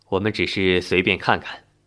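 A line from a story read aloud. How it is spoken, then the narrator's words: Slight smile. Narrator (Chinese): 军士微微一笑说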